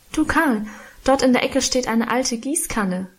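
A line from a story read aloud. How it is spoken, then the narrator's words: Calling out. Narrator (German): rief ich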